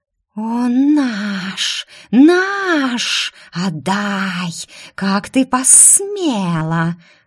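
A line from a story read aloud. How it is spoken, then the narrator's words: Hateful hissing. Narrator (Russian): Зашипели мавки, с ненавистью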